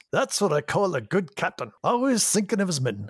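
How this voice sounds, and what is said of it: Scottish accent, Star Trek's Scotty. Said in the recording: “That was pretty good. That was good. ... get that accent back down ... my Scottish accent”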